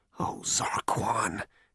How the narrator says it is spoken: he muttered to himself

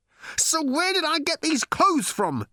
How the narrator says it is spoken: he howled

